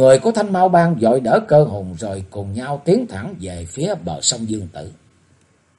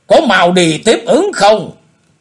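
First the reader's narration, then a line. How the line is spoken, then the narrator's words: Shouted order. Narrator (Vietnamese): Quái nhân áo lam quát bảo bọn người của Thanh Mao Bang rằng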